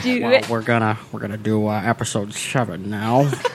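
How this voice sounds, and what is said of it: George Lucas impression, 1940s gangster villain. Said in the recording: “my George Lucas impression is just Jamie Heineman talking Star Wars ... it sounds like a 40s, like 1940s, like villain or something ... It's my Jamie Heineman impression ... Like a gangster.”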